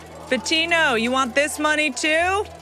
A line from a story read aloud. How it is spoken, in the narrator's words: The crowd shouts